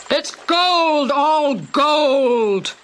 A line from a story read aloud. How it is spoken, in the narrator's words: they shouted